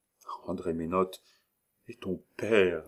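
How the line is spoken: Stammering. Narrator (French): balbutia-t-elle

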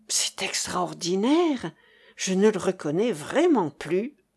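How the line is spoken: Said under breath. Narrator (French): fit à mi-voix Cécilie

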